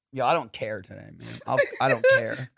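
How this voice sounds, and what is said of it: Gritty Southern accent. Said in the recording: “a gritty Southern accent ... Needs more grit ... Oh, that was pretty gritty.”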